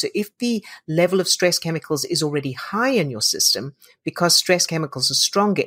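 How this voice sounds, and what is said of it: Soft, angelic accented voice. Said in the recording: “your voice is beautiful... your voice is like angelic and I love your accent”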